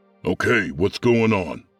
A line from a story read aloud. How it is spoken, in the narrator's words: Sergeant Harris barked